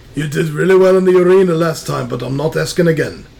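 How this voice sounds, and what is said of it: Muddled put-on Scottish accent. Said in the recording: “He turned Scottish. ... so is your accent.”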